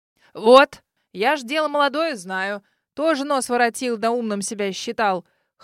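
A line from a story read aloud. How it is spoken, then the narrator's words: Smirk. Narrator (Russian): хмыкнул мистер Бакстер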